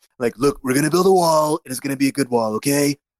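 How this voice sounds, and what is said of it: Donald Trump voice impression. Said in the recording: “I think I do a decent Trump accent. Accent, voice impression.”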